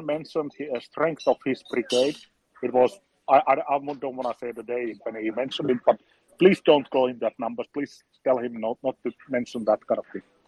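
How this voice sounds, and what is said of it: Finnish-sounding accent. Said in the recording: “as you can hear from his accent, undoubtedly he's your neighbor from across the Gulf of Bothnia”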